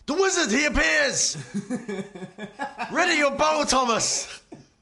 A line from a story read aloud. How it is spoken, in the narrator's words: the sergeant screams